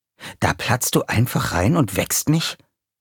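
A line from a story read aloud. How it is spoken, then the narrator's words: Hiss. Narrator (German): zischte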